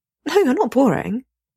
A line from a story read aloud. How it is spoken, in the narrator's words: says earnestly